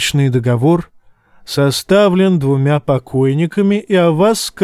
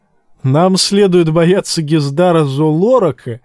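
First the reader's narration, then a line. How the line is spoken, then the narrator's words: Laughing. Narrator (Russian): засмеялся сир Гэрис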